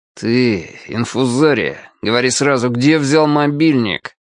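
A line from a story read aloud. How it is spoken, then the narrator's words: Said through gritted teeth. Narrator (Russian): Красавчик Дима сквозь зубы сказал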